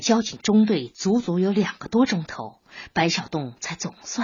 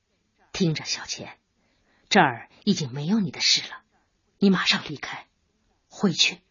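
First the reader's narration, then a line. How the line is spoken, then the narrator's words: Low, commanding voice. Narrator (Chinese): 白小东声音低沉而不容置疑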